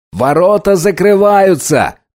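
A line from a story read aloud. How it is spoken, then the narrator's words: Shouted. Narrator (Russian): крикнул Райли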